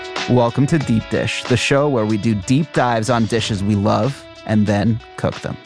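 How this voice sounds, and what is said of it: Deep radio announcer voice. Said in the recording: “that radio voice ... Batman voice.”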